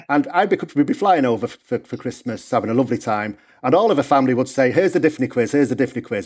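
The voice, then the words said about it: Northern English accent. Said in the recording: “you can hear from my accent, I'm from England originally, the north of England”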